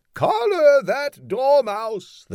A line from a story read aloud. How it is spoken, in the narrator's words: the queen shrieked out